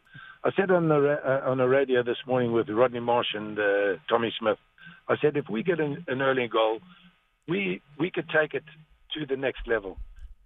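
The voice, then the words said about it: Slightly hoarse voice. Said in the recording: “my voice is a little bit hoarse because I've been shouting at the screen”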